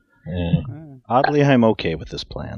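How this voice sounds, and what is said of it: Good impression of Cat Torque. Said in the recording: “That was a really good impression of Cat Torque.”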